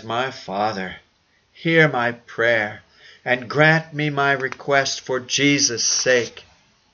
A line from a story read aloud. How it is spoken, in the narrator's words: he cries